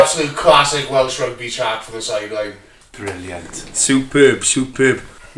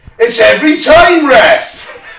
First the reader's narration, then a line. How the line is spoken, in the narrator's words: Shout from the crowd